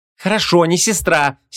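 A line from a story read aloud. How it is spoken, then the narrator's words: Angry reply. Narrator (Russian): сердито отозвалась Вон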